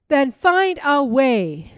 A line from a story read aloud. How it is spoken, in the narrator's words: shouted the mouse